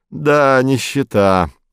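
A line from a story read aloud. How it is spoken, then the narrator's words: Sighing driver. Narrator (Russian): вздохнул водитель дилижанса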